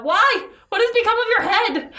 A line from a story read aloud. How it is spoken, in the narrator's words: the reapers all cried out